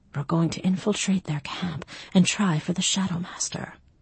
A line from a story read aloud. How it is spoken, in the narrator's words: with stones grinding into my belly and breasts, I murmured